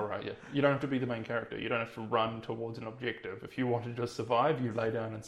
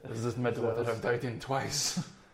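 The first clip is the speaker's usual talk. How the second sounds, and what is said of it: Shaky put-on French accent. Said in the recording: “while you're shaking with a French accent?”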